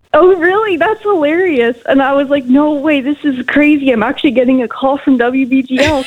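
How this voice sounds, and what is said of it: Canadian accent. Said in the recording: “I thought that you had a Canadian accent.”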